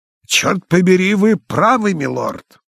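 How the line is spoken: Very loud shout. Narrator (Russian): крикнул очень громко, как кричал глухим

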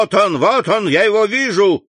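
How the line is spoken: Shout behind door. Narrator (Russian): крикнул голос за дверью

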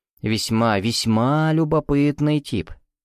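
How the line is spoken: Drawn-out drawl. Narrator (Russian): протянул комиссар Лазар

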